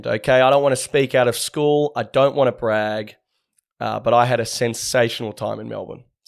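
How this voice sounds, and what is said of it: Voice sounds unwell. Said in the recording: “forgive my voice. I'm a little bit under the weather.”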